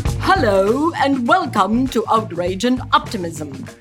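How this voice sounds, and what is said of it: Exaggerated English accent. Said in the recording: “I will exaggerate the English accent.”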